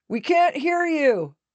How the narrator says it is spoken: a voice shouted

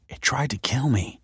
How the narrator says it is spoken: whispered Michael

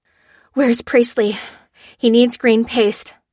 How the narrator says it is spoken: said Lucy breathlessly

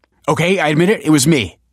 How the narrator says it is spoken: blurted Michael

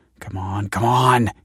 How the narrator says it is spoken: he muttered

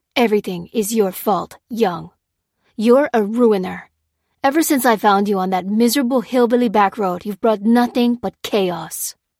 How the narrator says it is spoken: growled Lopez

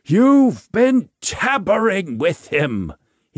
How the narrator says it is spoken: bellows as best he can

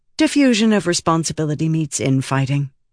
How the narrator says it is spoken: said Scranton

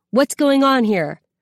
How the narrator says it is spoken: Lily says loudly

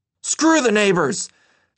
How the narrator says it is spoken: Dad yelled from inside the vehicle as he began to unravel

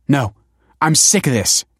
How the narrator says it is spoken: snapped Kelsey

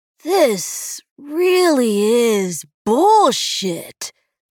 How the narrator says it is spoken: Will said, loudly enough to invite conversation with the people sitting around him and his wife, Emily

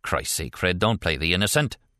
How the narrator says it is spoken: Dante snapped

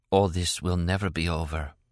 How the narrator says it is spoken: she breathed

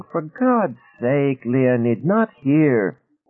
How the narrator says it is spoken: A woman could be heard whining

